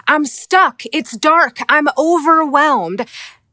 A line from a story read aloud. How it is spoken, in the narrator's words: They shout from the bottom